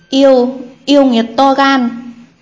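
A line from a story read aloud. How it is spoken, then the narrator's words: Frightened, forcing calm exclamation. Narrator (Vietnamese): Thái tử sợ hãi, toàn thân co giật, cố gắng trấn tĩnh thốt lên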